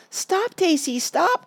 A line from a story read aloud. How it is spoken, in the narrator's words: cried Betsy